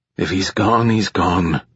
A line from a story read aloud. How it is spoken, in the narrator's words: Soon muttered